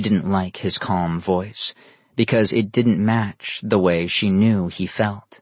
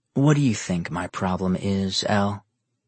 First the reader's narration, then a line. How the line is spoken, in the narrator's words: Nero calmly asked